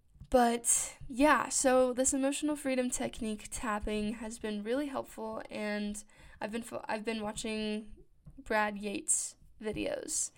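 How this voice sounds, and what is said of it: Scratchy, just-woke-up voice. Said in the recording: “sorry, my voice is I just woke up not too long ago, so my voice is a little scratchy.”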